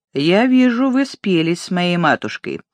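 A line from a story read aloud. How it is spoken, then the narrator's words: Accusatory prosecutorial tone. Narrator (Russian): Филдинг сказал прокурорским тоном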